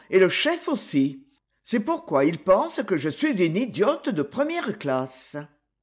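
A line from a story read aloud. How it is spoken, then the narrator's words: Cheerful. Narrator (French): dit-elle gaiement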